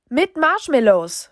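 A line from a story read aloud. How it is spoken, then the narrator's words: Called after. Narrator (German): rief Opa Alfred hinterher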